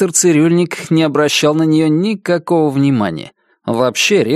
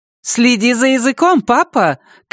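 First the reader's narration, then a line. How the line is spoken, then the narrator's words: Shouting from another room. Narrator (Russian): крикнула из кухни миссис Пэкет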